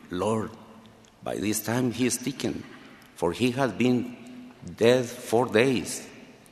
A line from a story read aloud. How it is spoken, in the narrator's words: Martha timidly whispered to him